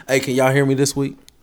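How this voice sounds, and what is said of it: Loud yelling voice. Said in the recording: “am I loud? ... You're yelling.”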